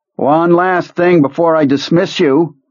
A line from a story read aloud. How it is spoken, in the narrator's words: he booms